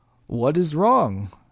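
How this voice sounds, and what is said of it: Growled line, thick German accent. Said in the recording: “he growled in a thick German accent”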